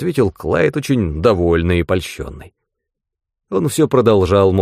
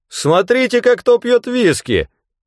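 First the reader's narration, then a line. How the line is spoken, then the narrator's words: Shouted to listeners. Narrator (Russian): крикнул Кинцела тем, кто еще мог обратить внимание на его слова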